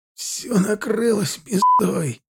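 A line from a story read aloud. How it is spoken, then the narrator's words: Groaning. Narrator (Russian): простонал он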